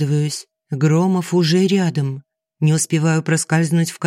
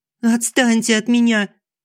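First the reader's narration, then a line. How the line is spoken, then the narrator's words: Piglike squeal. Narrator (Russian): Взвизгиваю, как поросенок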